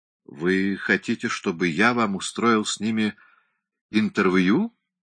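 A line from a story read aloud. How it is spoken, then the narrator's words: Uneasy question. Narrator (Russian): спросил мистер Хамфрис не совсем спокойным голосом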